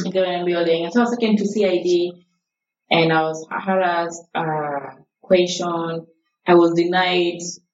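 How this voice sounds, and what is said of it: Accent others hear as Kenyan. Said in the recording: “people think I'm Kenyan because of my accent”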